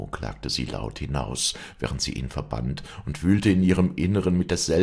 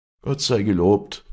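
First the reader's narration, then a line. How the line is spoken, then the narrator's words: Old man calling out. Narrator (German): rief der alte Herr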